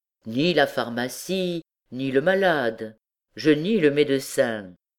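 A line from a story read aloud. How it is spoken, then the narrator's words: Said coldly. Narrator (French): dit froidement don Claude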